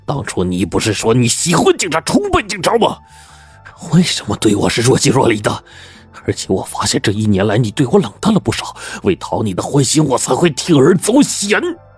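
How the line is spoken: Angry questioning. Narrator (Chinese): 外风愤怒的质问道

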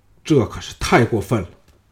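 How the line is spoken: Furious. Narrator (Chinese): 王陵大怒说

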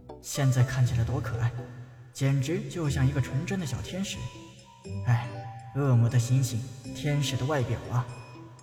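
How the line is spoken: Inner sigh. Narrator (Chinese): 陈南心中叹道

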